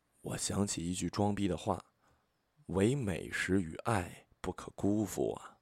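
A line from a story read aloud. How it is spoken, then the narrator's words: Low voice, aside. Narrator (Chinese): 我低声对旁边的朋友说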